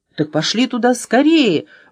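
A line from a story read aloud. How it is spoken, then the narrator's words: Exclaimed. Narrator (Russian): воскликнул Антон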